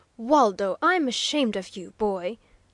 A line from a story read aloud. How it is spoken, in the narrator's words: almost harshly reproved the professor